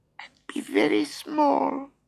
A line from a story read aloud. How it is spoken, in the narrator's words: squeaked Mouse